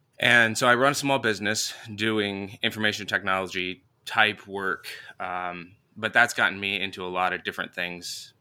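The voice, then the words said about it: Rough voice from a cold. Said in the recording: “I'm still getting over a cold. My voice is a little rough.”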